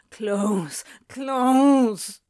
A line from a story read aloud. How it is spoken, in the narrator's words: Crowley was already moaning